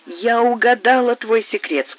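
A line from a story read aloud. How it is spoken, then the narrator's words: Plain. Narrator (Russian): сказала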